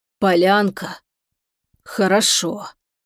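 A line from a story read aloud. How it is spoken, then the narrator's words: Strange, alien hoarse voice. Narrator (Russian): странным чужим голосом прохрипел он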